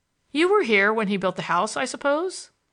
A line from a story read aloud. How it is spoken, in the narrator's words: My visitor laughed cheerfully